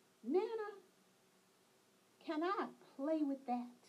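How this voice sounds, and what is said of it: Sweet little girl's voice. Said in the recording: “in her sweetest voice”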